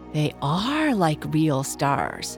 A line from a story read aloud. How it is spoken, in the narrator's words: murmured Chloe, for she had begun to have serious doubts whether the stars she had painted on the kite were not wrong after all